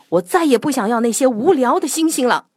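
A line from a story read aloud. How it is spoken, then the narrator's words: Angry roar. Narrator (Chinese): 坏脾气的格拉夫冲着小兔子怒吼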